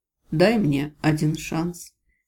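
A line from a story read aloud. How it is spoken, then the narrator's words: Very quiet plea. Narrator (Russian): совсем тихо попросил Гвори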